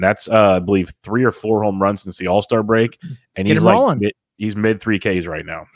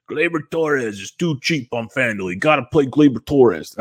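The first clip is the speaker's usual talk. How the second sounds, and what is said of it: Poor imitation of another person's voice. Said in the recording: “That's a very bad, very bad impersonation... it wasn't great”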